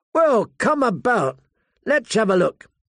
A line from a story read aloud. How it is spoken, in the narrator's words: Pip called out